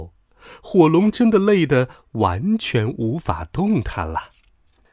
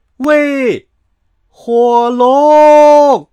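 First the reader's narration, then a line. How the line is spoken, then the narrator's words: Shouting as loud as possible. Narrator (Chinese): 尽可能的大声喊道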